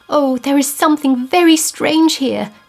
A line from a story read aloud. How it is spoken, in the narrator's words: she half sobbed